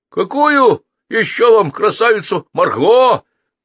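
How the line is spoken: Shout. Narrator (Russian): крикнул долговязый Маркус Джереми Йон

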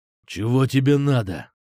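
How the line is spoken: Nervous hoarse rasp. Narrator (Russian): Нервно прохрипел он

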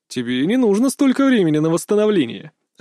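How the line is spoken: Laughing. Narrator (Russian): рассмеялся Лиму

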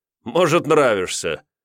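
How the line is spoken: Chuckling. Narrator (Russian): Йомантас хохотнул

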